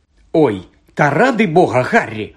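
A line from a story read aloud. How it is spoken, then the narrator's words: Angry, exasperated. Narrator (Ukrainian): сердито озвалася, бо один з ронових слонів збив її вершника з коня і потяг до краю дошки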